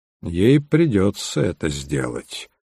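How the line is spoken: Grim. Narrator (Russian): мрачно заметил Холмс

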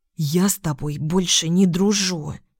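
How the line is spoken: Furious whisper. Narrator (Russian): шептала я ей яростно

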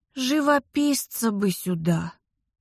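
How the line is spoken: Said wearily. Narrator (Russian): устало сказала

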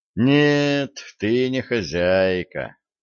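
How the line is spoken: Sad sigh. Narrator (Russian): грустно вздохнул Виталик

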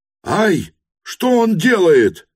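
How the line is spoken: Alarmed shout. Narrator (Russian): крикнул он, заметив вдруг на кровле пылавшего флигеля пожарного

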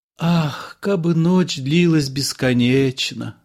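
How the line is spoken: Sighing. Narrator (Russian): вздохнула Цира

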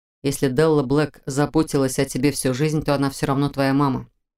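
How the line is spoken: Soft remark. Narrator (Russian): мягко заметил Фарлак

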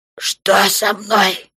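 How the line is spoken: Wheezing orc. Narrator (Russian): прохрипел орк

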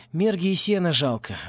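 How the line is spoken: Sighing. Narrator (Russian): вздохнул Порри

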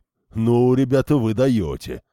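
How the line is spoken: Loud booming voice. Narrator (Russian): шумел своим зычным голосом туземец

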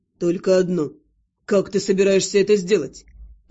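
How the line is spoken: Mocking question. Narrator (Russian): насмешливо осведомился Тюрн

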